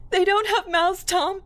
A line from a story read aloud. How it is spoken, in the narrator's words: she cried